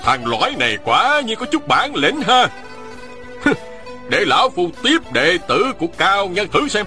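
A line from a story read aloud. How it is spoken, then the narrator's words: Shouting. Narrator (Vietnamese): Ôn Phương Nghĩa hét lên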